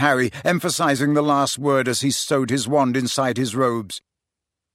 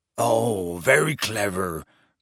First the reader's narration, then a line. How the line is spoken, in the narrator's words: growled Hagrid